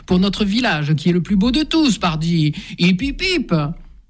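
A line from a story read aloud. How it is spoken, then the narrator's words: Shouting to everyone. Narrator (French): Marcel crie à la cantonade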